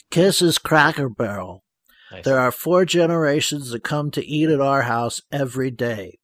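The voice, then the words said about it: Imitates another person's voice. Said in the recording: “my newest imitation. It's Doc McGee.”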